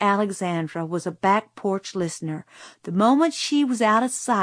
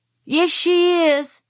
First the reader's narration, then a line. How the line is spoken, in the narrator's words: shouted Francis